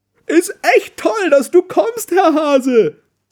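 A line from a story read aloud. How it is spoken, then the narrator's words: Calling out. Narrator (German): ruft sie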